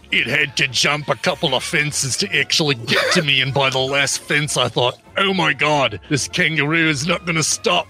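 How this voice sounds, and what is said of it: Attempted female Australian accent, still low. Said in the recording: “do it in one of your accents for the Australian ... this is a female, so higher voice, yep. Australian ... I like that you prefaced it by saying, all right, female, and then just didn't do anything close ... all females in Australia sound like men”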